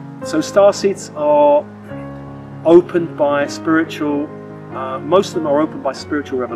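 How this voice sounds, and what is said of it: Usual voice. Nothing is said of it.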